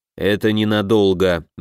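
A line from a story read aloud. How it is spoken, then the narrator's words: Grim promise. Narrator (Russian): мрачно пообещал Оут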